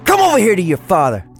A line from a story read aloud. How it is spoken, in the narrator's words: Johnny screams like a madman, red-faced and still high on the adrenaline